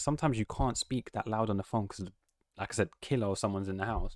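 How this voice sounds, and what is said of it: Usual voice. Nothing is said of it.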